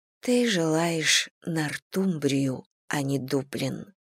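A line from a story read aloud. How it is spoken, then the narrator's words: Whispering in ear. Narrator (Russian): прошептала ему на ухо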